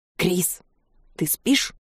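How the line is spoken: Whispered question. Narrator (Russian): Шепотом интересуюсь

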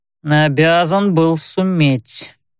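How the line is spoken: Through gritted teeth. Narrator (Russian): процедил Макнелл сквозь зубы

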